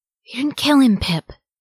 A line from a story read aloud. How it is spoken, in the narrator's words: Merry exclaimed under his breath